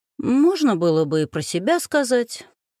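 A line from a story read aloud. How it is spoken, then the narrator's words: Cheerful. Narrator (Russian): весело заметил он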